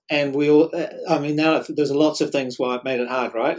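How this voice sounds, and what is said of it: New Zealand accent. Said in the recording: “my accent could not be online... sounding Kiwi”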